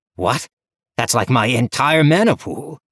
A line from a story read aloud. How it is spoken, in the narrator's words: Levi exclaimed in shock